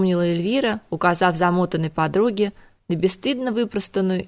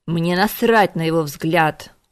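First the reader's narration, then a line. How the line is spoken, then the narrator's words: Menacing growl. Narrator (Russian): угрожающе прорычала Кира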